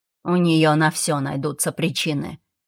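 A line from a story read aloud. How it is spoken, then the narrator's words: Young man grumbling. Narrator (Russian): проворчал парень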